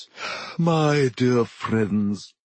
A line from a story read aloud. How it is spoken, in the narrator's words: he said mournfully